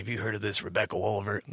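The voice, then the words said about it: Imitates another person's voice. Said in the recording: “my Ed impression ... Yeah, it's good”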